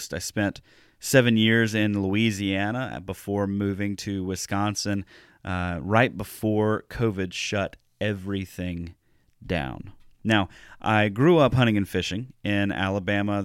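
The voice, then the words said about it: Deep South US accent. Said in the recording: “If you can't hear it in my accent, I ain't from around here. I actually grew up in the Deep South. I'm from Alabama, not far from the Gulf Coast.”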